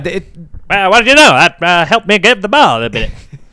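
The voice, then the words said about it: Old-time 1920s American accent. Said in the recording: “Was that your 20s American accent? That, I actually thought Babe Ruth was just on the podcast there talking.”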